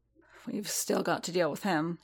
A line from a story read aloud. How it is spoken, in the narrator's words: he muttered